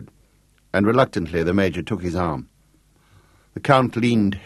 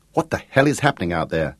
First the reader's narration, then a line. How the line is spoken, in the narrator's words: fretted Gareth Swales, anxiously